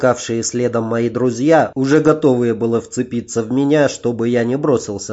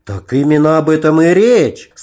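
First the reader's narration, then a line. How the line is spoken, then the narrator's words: Enthusiastic exclamation. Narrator (Russian): с энтузиазмом воскликнул я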